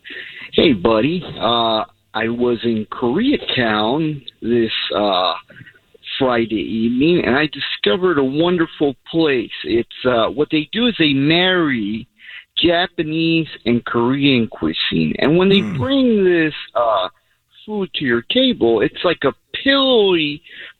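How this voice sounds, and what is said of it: Imitates another person's voice. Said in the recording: “Can I do a really quick Neil Saavedra impression? ... do an impression of him”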